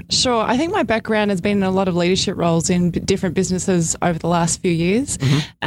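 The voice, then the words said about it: Australian accent. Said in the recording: “you don't sound like you're native from the United States ... Australia, mate.”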